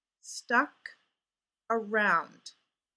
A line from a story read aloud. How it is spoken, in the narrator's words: Fraser repeated slowly